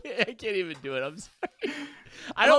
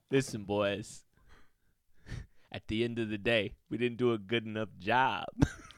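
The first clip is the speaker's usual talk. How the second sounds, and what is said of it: Imitates another person's voice. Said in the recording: “that was Eric Bieniemy, and I was gonna try on the spot to do Eric”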